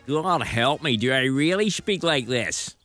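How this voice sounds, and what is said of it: Rory McIlroy with ludicrous Americanized accent. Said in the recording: “Rory McIlroy ... the ludicrous accent that living in America has given him”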